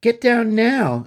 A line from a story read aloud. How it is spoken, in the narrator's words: yelled